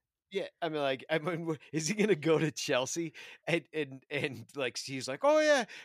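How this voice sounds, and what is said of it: Usual voice. Nothing is said of it.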